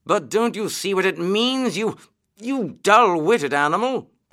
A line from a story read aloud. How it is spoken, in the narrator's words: cried the Rat impatiently